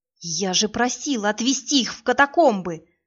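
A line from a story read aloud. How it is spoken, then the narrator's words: Hissed through teeth. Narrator (Russian): зашипела сквозь зубы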